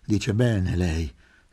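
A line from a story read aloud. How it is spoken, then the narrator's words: Sighed. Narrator (Italian): sospirò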